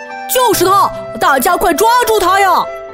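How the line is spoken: Urgent alarmed shout. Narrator (Chinese): 更夫叔叔看见强盗跑出来，连忙喊道

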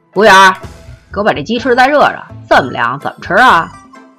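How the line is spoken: Annoyed loud shout. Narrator (Chinese): 肥三儿一脸晦气的叹了一口气，然后高声喊

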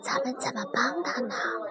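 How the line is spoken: Whisper. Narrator (Chinese): 米洛悄声对卡达说

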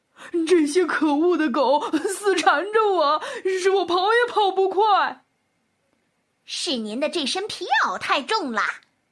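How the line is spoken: Bear, sobbing. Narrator (Chinese): 狗熊哭哭啼啼地说

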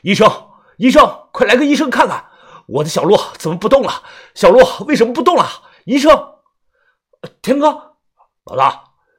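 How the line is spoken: Panicked desperate shout. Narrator (Chinese): 显得是极其的慌乱，红着眼睛拼命的大喊

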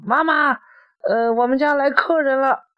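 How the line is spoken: Child shouting loudly. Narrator (Chinese): 小孩子就大声的喊

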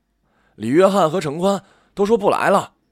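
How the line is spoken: Boy's startled cry. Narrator (Chinese): 门口就有一男生惊叫

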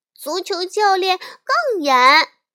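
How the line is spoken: Calling out. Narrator (Chinese): 小熊妹妹也叫道

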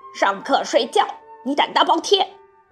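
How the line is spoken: Teacher roaring. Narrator (Chinese): 老师的声音更大了，像狮子在吼

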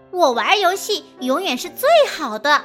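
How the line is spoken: Loud shout. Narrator (Chinese): 他大声喊道

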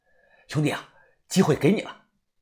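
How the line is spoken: Panting through gritted teeth. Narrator (Chinese): 我咬着牙喘着气

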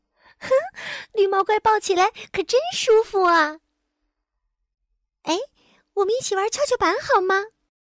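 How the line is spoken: Giggling. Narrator (Chinese): 罗拉咯咯的笑着说

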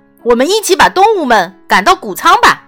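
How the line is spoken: Shouting. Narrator (Chinese): 弗瑞德大喊

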